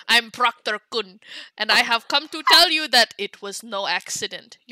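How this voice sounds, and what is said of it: Reads aloud in a put-on accent. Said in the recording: “Why are you reading it in that accent?”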